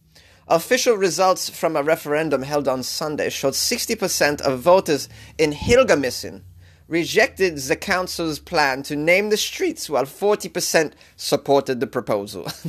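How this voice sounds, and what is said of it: Bad put-on German accent. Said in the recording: “This is the worst German accent. I'm trying, though.”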